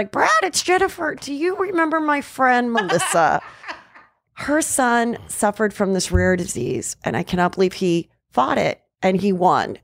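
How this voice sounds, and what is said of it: Impression of Jennifer speaking. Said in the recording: “Good impression.”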